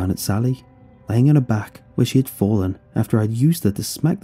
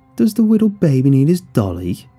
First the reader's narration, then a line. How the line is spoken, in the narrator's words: mocked in a childlike voice